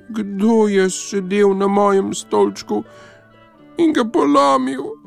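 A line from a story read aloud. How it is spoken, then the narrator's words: Thin mouse-like squeak. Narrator (Slovenian): Miško pa je zacvilil tanko kot miš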